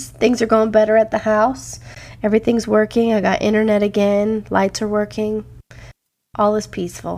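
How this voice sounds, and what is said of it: Slightly off, unwell-sounding voice. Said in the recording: “Feeling sick last week. Still got a little bit of a weird voice”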